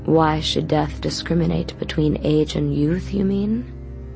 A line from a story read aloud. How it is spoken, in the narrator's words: He asked calmly